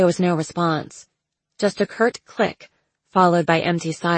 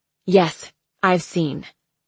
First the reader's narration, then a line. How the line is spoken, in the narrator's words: she snapped